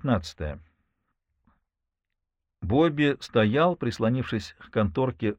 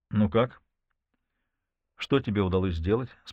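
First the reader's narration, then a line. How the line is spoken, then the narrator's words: Calm question. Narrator (Russian): спокойно спросил он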